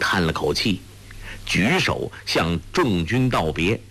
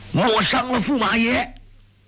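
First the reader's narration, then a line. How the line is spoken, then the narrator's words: Shouting from the crowd. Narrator (Chinese): 只听军中发喊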